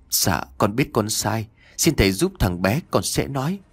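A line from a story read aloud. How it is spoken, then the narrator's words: Trembling voice. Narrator (Vietnamese): Chồng của bà Hương giọng run rẩy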